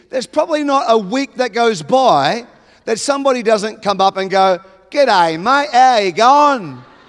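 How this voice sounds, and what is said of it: Australian accent. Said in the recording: “I'm an Australian.”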